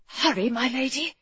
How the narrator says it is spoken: he whispered

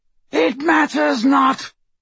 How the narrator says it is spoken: shrieked Voldemort, let out a cackle of mad laughter

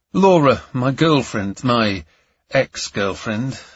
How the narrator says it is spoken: sighed

